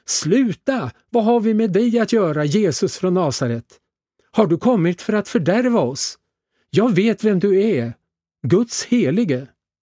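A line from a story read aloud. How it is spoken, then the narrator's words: Loud possessed shout. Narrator (Swedish): en man med en oren ande och han skrek högt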